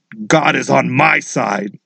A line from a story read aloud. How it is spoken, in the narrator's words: said Daddy in a scary, cruel voice